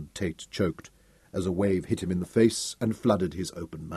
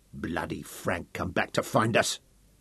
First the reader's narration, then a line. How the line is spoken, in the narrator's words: growled through chattering teeth